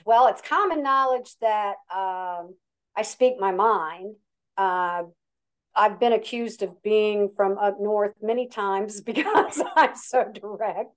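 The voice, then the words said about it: Regional accent. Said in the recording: “I can hear the accent ... you can tell by the accent”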